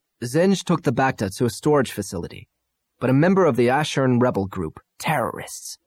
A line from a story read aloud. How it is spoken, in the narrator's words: Irisi spat